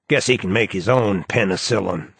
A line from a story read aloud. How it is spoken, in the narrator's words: snarled the doctor